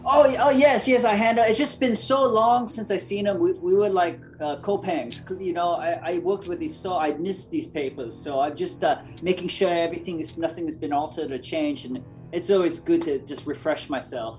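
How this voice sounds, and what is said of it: Deep Belter accent. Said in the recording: “He hears your deep belter accent.”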